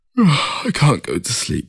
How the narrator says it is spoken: he said through a yawn

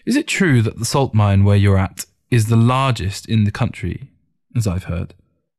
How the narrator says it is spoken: Ting asked

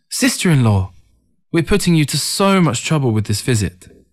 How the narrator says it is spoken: Ting eagerly exclaimed

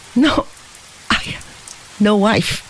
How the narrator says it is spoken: asserted with a choky little laugh

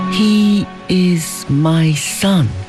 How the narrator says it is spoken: reiterated Hong Hing, slowly and solemnly

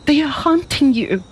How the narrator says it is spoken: cried

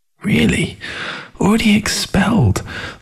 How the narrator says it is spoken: I muttered her words over to myself

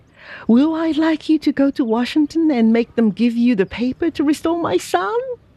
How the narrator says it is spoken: cried he

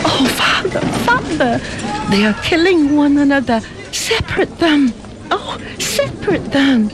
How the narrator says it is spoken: pleaded Feng Fan

